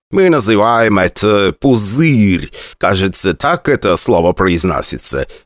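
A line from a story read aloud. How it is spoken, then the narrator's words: Loud, into the ear. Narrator (Russian): громко сказал мне на ухо Алан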